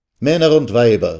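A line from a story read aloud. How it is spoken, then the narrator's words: Called out. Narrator (German): rief er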